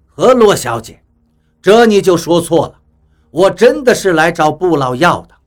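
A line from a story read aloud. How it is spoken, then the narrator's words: With a smile. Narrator (Chinese): 比利笑了笑，说道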